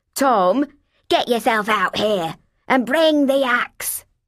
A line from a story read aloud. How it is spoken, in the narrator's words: the woman screeched